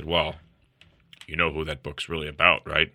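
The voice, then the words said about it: Imitation of a friend's voice. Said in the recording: “your Rod impression ... Well, I can do a better one ... I've been sick”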